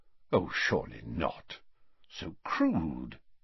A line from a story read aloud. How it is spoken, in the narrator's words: Dumbledore said quietly